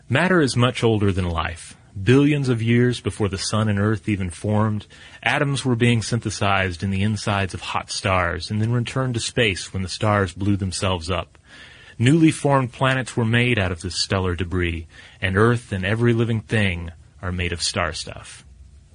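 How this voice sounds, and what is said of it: Serious, solemn reading voice. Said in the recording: “I'm just going to read it uh, in my uh, serious voice ... a little Sagan”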